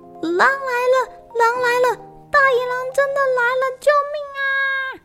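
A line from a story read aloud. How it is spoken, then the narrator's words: Shouting until shrill and hoarse. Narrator (Chinese): 他喊到声音尖了、哑了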